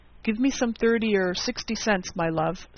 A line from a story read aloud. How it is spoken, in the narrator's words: said the major